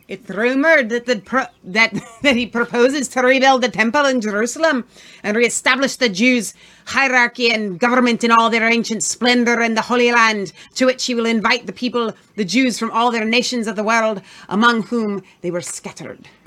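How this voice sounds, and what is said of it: Put-on Scottish accent. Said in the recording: “Can you do a Scottish accent for me? ... That was really good. ... It was really bad. ... Scottish is really hard.”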